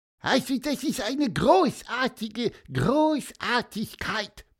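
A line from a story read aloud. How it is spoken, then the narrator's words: Squeaky voice. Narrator (German): piepste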